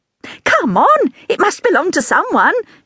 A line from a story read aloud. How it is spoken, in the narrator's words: said brightly